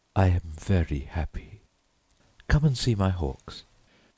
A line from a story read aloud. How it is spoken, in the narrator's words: she sighed